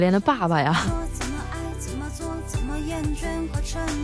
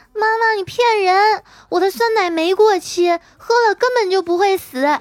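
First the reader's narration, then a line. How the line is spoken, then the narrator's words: Child shouting. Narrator (Chinese): 闺女喊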